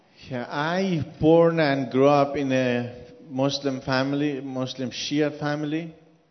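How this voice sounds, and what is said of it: Non-native accented English. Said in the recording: “because of your accent ... You couldn't understand my accent”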